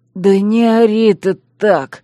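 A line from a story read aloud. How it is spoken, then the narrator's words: Pained wheeze. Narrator (Russian): прохрипел Кай, морщась как от боли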